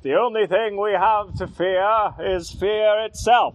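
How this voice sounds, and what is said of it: Impression of Franklin Roosevelt. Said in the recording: “That was a very good impression of Roosevelt”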